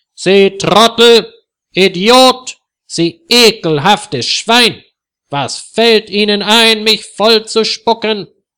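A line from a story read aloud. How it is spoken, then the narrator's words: Furious, barely able to speak. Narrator (German): Herr Ungewitter ist so wütend, dass er kaum sprechen kann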